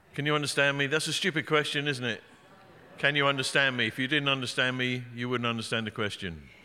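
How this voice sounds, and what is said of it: English accent, speaks quite quickly. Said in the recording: “I speak quite quickly. I'm an Englishman. Got a bad accent.”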